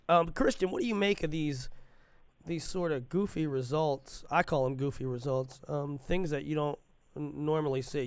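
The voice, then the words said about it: Sick, congested voice. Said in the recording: “as you can probably tell by my voice, it's flu season”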